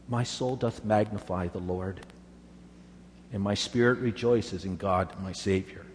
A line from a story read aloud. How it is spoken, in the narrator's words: weakly sang